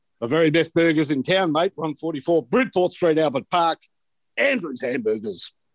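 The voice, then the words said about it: Exaggerated Australian accent. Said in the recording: “in an Australian accent ... suitably Aussie?”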